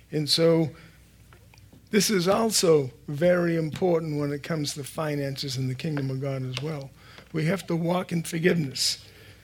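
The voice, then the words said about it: Raspy voice. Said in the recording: “I'm going to try putting a mint or something in my mouth so I don't have this raspy voice here.”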